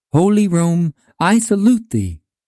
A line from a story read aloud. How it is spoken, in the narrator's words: With deep emotion, exclaiming